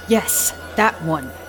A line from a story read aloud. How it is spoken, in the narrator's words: barks back